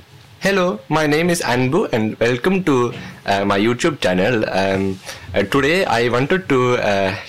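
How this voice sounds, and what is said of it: South Indian accent in English. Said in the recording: “any Indian person speaking in English ... the South Indian accent ... it's quite different from the accents that we're probably used to ... It's very peculiar”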